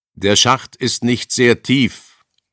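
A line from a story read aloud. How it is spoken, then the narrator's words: Calling out. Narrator (German): rief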